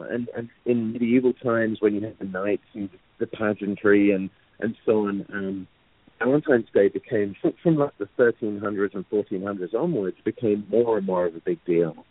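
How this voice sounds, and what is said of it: English accent. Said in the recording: “particularly in England, where I'm from, as you may tell from the horrendous accent.”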